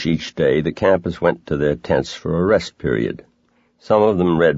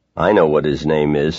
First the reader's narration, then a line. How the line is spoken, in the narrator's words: said another boy